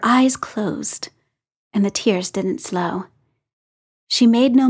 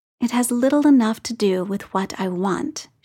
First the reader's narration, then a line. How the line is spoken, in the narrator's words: she said